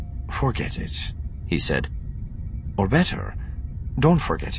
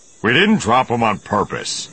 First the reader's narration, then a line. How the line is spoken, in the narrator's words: Han growled